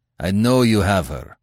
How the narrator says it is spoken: answered Kerim Shah

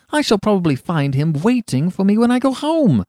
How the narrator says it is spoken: cried Huey

